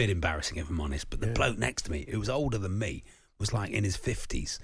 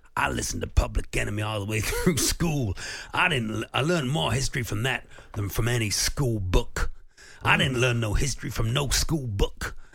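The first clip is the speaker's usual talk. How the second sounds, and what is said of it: Put-on American accent. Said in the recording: “he put on this sort of accent, this sort of American accent ... He was saying it like this”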